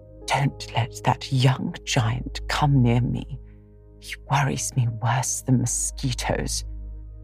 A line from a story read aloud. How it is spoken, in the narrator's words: whispered the old lady to Amy